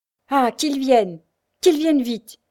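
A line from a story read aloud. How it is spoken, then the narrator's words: Exclaimed. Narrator (French): s'écria M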